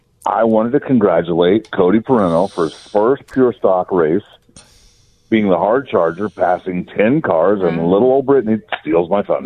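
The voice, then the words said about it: Tired-sounding voice. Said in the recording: “He sounds a little tired. ... he's probably exhausted. ... I'm a little tired.”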